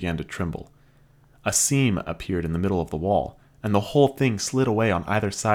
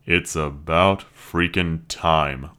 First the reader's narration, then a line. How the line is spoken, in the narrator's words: Luke grumbled